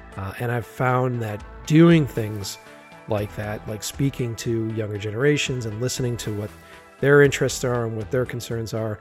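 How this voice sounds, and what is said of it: Raspy, worn voice. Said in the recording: “aftermath of a pretty intense asthma attack ... my voice is uh, a little raspy and worn”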